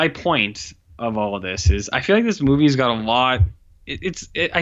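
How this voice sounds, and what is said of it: Usual voice. Nothing is said of it.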